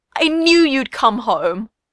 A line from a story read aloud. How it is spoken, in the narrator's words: Usopp cried